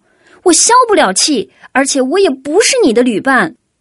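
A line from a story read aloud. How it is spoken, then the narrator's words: Loud shouting. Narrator (Chinese): 多兹大声嚷道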